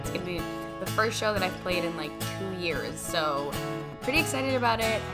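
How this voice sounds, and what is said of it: Slightly raspy voice. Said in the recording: “Pardon my voice, I'm a little raspy today. It's a combination of allergies and rehearsing”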